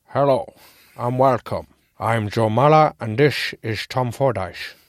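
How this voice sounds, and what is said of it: Put-on Dutch accent. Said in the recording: “putting on this Dutch accent”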